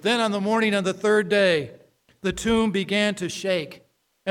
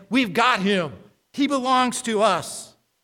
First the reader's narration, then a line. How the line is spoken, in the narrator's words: They exclaim